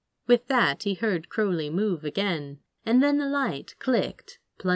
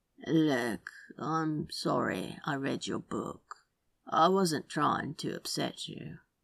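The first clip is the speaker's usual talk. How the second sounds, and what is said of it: Low, tired drawl. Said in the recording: “a low, tired drawl”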